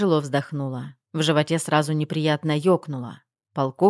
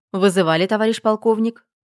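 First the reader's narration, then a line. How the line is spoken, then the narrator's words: Brisk loud question. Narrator (Russian): Бодро и громко спросила я, чтобы разрядить обстановку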